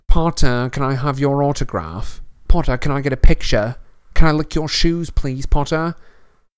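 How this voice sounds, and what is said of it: Cruel, accurate mocking imitation. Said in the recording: “did a cruel but accurate impression”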